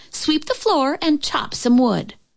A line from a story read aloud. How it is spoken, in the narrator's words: yelled her older sister